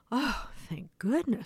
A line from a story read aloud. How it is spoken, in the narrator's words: sighed the duckling